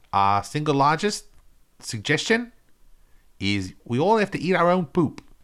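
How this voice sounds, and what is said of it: Put-on New Zealand accent. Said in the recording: “This is New Zealand accent... I'm doing New Zealand accent... It's a mix of New Zealand and JFK.”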